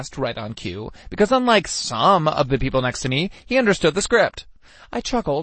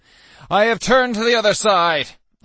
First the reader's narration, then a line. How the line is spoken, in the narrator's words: I shouted